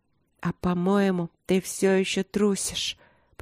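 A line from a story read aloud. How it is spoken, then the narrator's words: Whisper. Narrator (Russian): прошептала я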